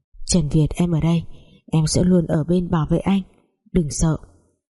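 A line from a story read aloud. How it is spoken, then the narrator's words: Whisper. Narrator (Vietnamese): Giang Nhung thì thầm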